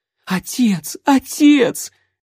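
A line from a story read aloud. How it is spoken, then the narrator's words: Choking on sobs. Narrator (Russian): Давясь всхлипами, Рози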